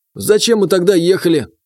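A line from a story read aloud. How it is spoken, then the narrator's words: Angry question. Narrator (Russian): зло спросил Джанибек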